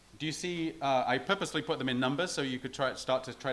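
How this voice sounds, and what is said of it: Usual voice. Nothing is said of it.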